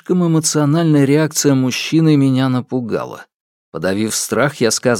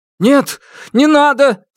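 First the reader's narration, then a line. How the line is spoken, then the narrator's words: Shouting. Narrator (Russian): закричал Лю Вэй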